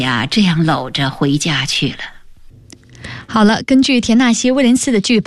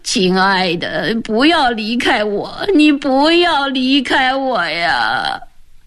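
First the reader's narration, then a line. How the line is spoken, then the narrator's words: Crying, pleading repeatedly. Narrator (Chinese): 斯坦利 哭了起来，嘴里不住地说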